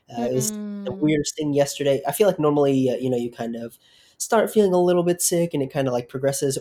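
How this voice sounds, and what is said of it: Strange, sick-sounding voice. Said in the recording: “listeners can probably tell by my voice sounding a little strange. I don't feel great.”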